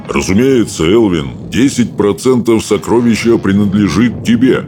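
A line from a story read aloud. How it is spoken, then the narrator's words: Booming, proud. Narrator (Russian): Прогудел стоек обширный, гордый своей щедростью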